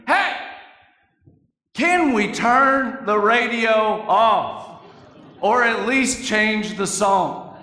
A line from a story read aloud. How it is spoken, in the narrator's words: my grandfather yells from the other room